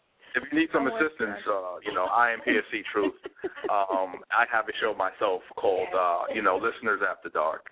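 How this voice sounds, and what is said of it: Put-on sexy, seductive voice. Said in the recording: “sexy voice? That was a sexy voice. ... He was using his sexy voice”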